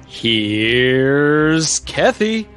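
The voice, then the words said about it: Creepy imitation of another person's voice. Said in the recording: “looking creepy and using his most wonderful Jack Nicholson impersonation ... That's really creepy.”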